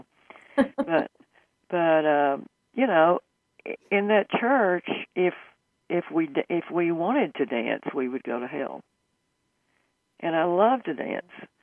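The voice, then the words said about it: Southern American drawl. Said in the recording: “my southern drawl was hard to get rid of. I still ain't gotten rid of my southern drawl.”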